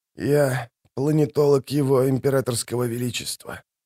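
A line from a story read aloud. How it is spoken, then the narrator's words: Whisper. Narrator (Russian): продолжил он уже шепотом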